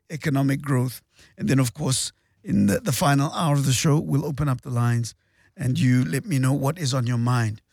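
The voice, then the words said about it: Strained, unwell-sounding voice. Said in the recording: “As you can hear, my voice is suffering a little bit ... after an epic battle with the flu”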